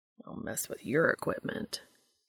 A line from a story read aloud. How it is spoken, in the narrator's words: Cass grumbles